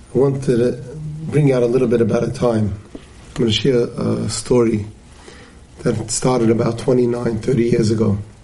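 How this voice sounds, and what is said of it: Rough, unwell-sounding voice. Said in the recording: “apologize for my voice. I'm going through a cold”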